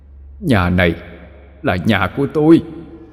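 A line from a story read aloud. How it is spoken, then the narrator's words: Harsh, emphatic. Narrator (Vietnamese): Người kia gằn giọng nói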